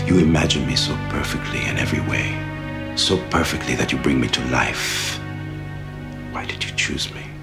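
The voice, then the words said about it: Silky smooth sexy male voice. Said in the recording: “that silky smooth voice ... A sexy voice”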